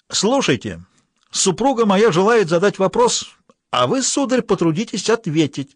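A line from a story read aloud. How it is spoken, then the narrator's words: Thoughtful shout. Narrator (Russian): Чиновник крикнул думчиво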